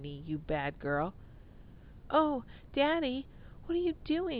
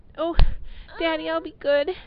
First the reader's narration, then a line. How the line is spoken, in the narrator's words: she pleaded